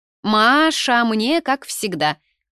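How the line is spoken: Shouting. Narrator (Russian): закричала Тинка молодой официантке

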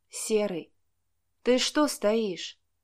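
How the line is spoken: Sleepy girl's question. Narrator (Russian): сонно спросила девушка

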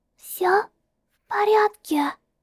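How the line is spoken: Whisper. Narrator (Russian): прошептав

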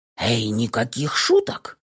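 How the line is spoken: Quiet whisper. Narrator (Russian): Понизил я голос до тихого шепота

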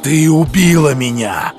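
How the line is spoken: Growling. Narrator (Russian): прорычал Бруно Фрай

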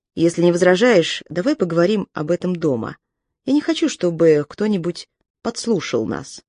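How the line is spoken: Plain. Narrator (Russian): сказал Тайлер

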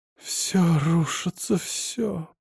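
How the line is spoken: Muttered. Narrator (Russian): пробормотала она

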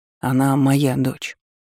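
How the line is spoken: Calm. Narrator (Russian): спокойно произнес Власт

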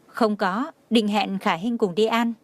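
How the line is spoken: Smiling. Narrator (Vietnamese): Nhã Tuệ mỉm cười nói

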